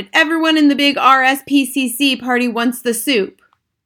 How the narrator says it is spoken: another waiter he shouted

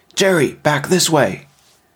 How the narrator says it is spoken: Big Tom called out

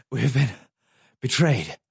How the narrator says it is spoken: she gasped

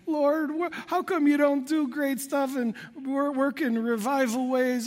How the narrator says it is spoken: whining to the Lord

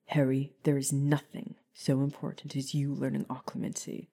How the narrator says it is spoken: Remus said sternly

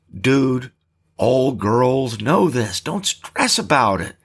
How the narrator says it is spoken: said Jace

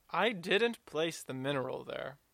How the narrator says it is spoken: declared solemnly

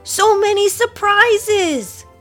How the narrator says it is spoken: Finn shouted with joy

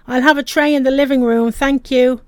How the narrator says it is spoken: Her father shouting

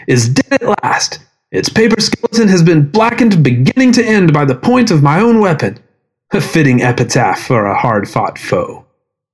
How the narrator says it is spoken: shouted

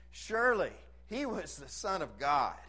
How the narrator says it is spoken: they exclaimed

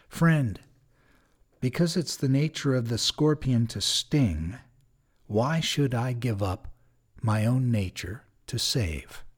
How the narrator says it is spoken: Slowly, the old man looking calmly said

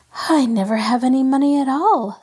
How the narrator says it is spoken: sighed Betty

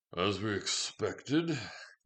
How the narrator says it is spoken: grumbled

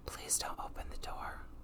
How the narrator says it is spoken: Holden whispered

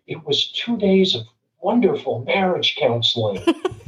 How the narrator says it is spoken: said to me again, very softly

